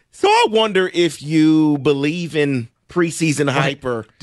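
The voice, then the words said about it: Voice cracks into falsetto. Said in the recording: “Did you just go falsetto on us? ... His voice cracked.”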